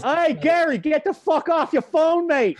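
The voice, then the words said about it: Bad put-on Boston accent. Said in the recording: “Oh, that was terrible. ... that was the worst Boston accent ever.”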